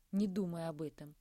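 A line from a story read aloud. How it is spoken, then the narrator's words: Plain. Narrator (Russian): сказала Кристина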